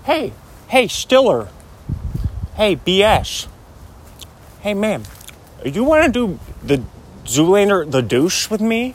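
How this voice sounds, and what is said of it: Imitates another person's voice. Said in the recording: “remember I used to do Owen Wilson, man? ... hear my Owen Wilson impression”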